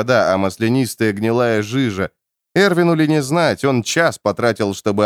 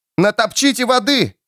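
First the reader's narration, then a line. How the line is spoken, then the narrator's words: Shout. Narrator (Russian): крикнул Кит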